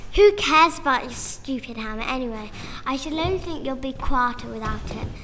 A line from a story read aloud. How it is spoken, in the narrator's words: said Freya in a snootily voice